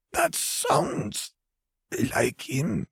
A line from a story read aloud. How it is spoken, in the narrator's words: Vare rasped